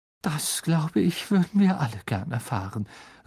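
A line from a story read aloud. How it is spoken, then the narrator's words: Said, weary voice. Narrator (German): sagte Professor McGonagall mit matter Stimme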